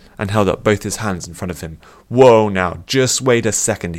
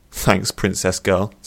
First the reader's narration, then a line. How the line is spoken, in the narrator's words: said Elran